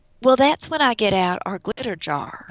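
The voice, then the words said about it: Put-on Dallas Texan accent. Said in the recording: “I'm going to do a Dallas accent”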